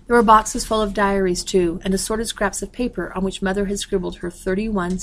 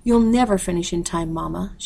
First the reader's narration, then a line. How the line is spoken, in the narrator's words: she sighed